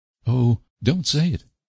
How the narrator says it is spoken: cried Anne pleadingly

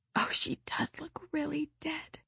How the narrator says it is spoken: whispered Ruby Gillis nervously

